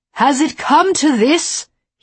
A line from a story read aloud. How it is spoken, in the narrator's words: he yelled